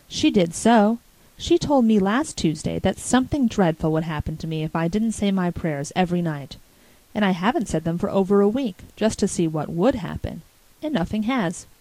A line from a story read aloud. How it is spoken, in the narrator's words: concluded Davy in an aggrieved tone